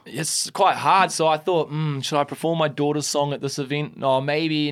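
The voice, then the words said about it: New Zealand accent. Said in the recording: “that New Zealand accent”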